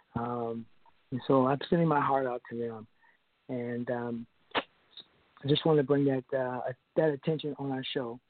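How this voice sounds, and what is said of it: Choked-up emotional voice. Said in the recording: “I got a little choked up.”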